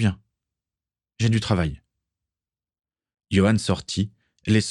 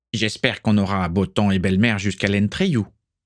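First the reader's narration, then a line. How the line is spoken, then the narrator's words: Plain. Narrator (French): dit Igor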